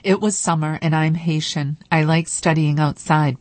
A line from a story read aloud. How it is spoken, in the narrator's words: Bonnard says